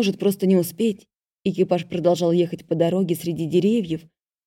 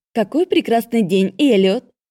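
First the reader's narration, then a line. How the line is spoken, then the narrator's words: Cheerful chirping, smiling. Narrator (Russian): Весело прощебетала улыбаясь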